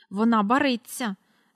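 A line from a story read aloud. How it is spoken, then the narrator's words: Angry and worried. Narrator (Ukrainian): сердито й занепокоєно сказала місіс Корі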